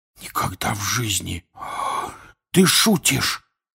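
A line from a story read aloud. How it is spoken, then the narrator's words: Whispered. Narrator (Russian): прошептал Рон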